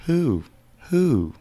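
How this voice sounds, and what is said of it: Imitates an owl hooting. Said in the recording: “does a really good owl impression”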